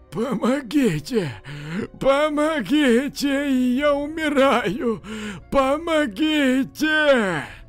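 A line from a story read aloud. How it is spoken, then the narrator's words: Hoarse mumbling. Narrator (Russian): Человек хриплым голосом бормотал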